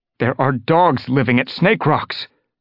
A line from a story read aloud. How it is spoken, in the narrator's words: Longtail blurted out